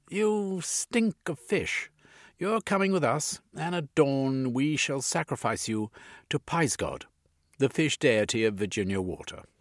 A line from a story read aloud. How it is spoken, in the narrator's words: The rider laughed and replied